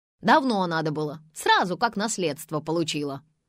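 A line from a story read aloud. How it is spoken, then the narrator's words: Barking snap. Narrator (Russian): рявкнула собеседница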